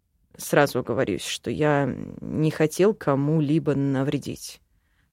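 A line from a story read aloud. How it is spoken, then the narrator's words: Muttered, elf. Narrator (Russian): пробормотал эльф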